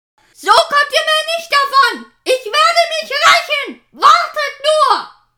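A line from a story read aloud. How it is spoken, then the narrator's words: Furious shout. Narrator (German): wutschnaubend schrie zu den siegreichen Flakern hinüber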